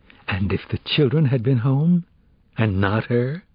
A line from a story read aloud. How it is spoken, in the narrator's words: Sachs gasped